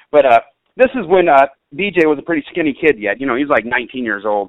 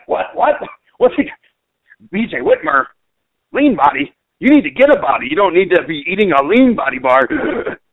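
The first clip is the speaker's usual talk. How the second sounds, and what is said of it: Imitates another person's voice. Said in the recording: “that's Les's laugh there. But I'm sorry, Les, I got that imitation.”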